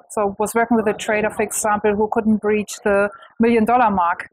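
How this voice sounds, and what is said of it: German accent. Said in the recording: “I am German, though. That's what you most probably wonder about my accent.”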